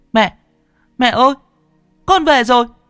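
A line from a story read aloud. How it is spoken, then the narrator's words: Shout. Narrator (Vietnamese): Nó hét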